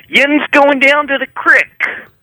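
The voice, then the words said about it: Put-on Erie/Pittsburgh accent. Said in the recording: “do my Erie accent ... That's Pittsburgh ... That's pretty good, actually.”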